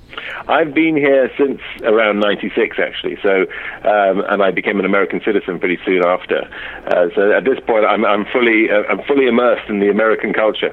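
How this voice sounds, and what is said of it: British accent. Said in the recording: “you have that great accent ... And the great British”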